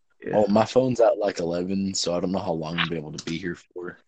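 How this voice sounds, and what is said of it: Poor put-on Southern accent. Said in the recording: “You better drop that accent. It sounds really weird. ... can't do a proper southern accent. It sounds really off. ... Sounds like you just got really drunk and then tried to imitate”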